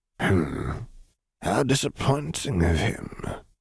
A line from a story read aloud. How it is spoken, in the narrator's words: he muttered